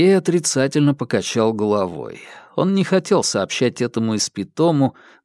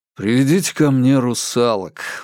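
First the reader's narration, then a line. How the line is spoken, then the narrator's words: Tired request. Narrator (Russian): устало попросил он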